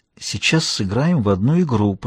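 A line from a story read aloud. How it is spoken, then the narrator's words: Whisper. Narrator (Russian): прошептала она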